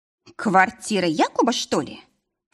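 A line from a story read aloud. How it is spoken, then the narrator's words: Snort. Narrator (Russian): фыркнула Виктория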